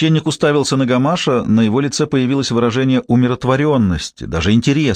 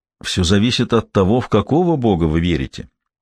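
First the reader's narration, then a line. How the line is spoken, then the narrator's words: Plain. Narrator (Russian): ответил Гамаш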